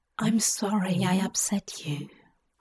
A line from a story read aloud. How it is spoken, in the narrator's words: Hob whispered to the ear of his pale companion